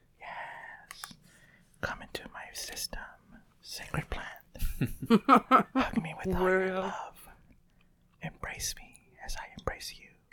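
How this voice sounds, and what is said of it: Whispering, ASMR-like soft voice. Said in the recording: “I don't know why I'm whispering. ... I thought we were doing ASMR”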